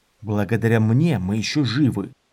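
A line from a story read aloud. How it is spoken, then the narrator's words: Grumbled. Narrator (Russian): буркнул Дорин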